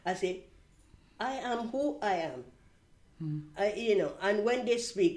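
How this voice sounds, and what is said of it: Non-native English accent. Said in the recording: “Why do you have this accent ... I cannot change my accent”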